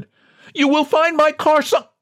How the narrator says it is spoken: From the door, John desperately tried to add

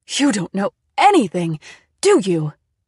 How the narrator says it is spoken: She cried

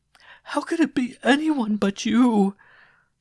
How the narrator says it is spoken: She gasped between her sobs

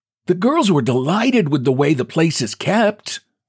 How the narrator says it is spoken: piped the old voice

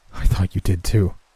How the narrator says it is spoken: I replied, attempting to force out a falsified chuckle

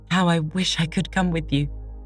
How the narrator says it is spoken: cried

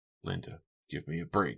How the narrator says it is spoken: he muttered

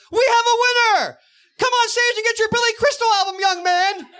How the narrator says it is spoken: quickly yells

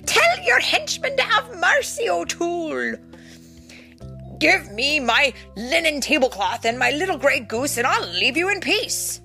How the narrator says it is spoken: said Tim, laughing all the while

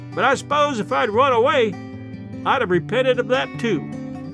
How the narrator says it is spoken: as the train gathered speed and the distance between us widened, she shouted after us

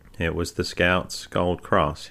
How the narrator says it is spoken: said

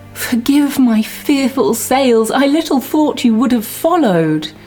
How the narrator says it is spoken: Cleopatra pleads

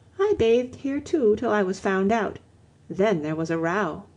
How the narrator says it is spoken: she answered dreamily

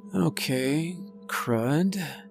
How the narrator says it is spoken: I muttered to myself

